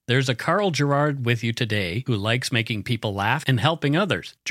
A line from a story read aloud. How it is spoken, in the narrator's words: Gerard said